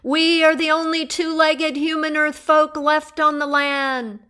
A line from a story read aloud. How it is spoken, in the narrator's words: the ancient one raised her voice